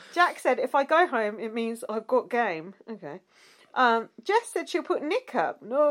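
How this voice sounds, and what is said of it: Usual voice. Nothing is said of it.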